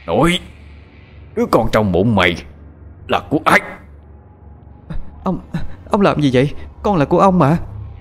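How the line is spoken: Harsh, gritted voice. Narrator (Vietnamese): Lý trưởng gằn giọng

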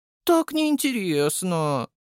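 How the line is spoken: Drawled. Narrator (Russian): протянула Сора

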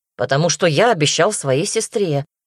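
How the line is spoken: Stern. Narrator (Russian): строго ответил Даня

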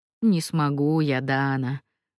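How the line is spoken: Sighing. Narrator (Russian): вздохнул Джустино

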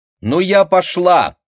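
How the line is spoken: Loud. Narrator (Russian): громко сказала Леночка

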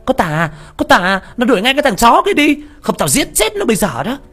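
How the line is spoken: Yelling. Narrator (Vietnamese): nó la lên

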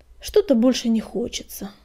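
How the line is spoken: Sighing. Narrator (Russian): вздохнул он через минуту

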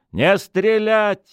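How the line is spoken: Commanding shout. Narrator (Russian): выкрикнула Стефания командирским голосом

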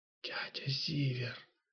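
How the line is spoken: Whispered reply. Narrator (Russian): шепотом отозвалась Марлена

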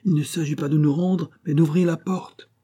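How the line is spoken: Shouting from window. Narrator (French): cria le président par la fenêtre

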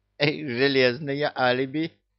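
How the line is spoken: Giggle. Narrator (Russian): хихикнул Люка

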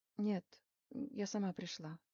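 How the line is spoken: Quiet, tearful. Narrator (Russian): тихо сказала Рита, утирая слезы платочком

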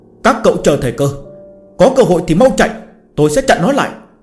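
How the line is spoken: Loud shout through gritted teeth. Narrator (Vietnamese): Chu Chính cắn răng, hét lớn

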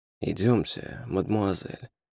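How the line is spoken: Muttered in French. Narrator (Russian): пробормотал он по-французски

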